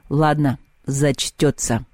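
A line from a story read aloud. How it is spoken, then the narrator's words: Through clenched teeth. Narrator (Russian): процедил Перун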